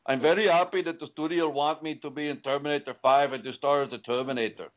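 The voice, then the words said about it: Arnold Schwarzenegger impression. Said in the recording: “And he said it like that. That was a pretty good Schwarzenegger impersonation”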